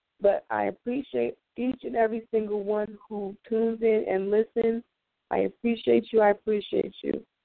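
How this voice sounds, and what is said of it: Raspy voice. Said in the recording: “my voice is a little raspy, and that's from, you know, me being under the weather”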